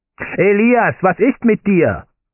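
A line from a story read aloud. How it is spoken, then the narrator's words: Shout. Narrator (German): schrie das von Bluthochdruck geprägte Gesicht meines Bauleiters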